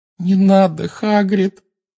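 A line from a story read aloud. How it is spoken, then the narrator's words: Moaning plea. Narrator (Russian): простонала Гермиона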